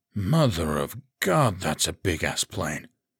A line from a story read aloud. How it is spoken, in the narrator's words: Troy breathed